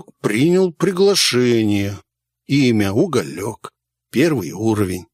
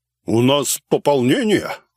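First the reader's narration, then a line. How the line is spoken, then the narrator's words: Snort close to ear. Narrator (Russian): хмыкнул над моим ухом Дизель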